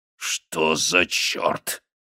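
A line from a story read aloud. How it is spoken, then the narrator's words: Growled again. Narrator (Russian): снова прорычал он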